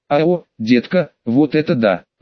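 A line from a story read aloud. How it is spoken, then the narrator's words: Breathless exhale. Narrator (Russian): выдохнула Меган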